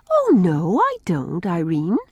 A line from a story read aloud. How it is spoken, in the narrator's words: I said, every bit as sweetly